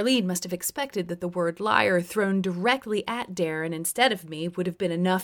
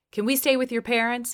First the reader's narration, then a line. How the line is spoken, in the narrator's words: asked